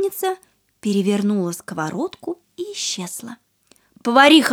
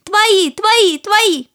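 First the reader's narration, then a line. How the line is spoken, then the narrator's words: Loud chorus answer. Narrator (Russian): Рыбки громко ответили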